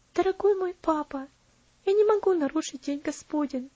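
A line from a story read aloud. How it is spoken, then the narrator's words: Soft, gentle reply. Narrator (Russian): ответила она тихим, нежным голосом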